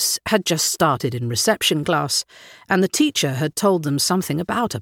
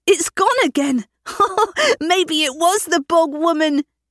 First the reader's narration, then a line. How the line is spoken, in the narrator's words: teased Mikkel as he started to laugh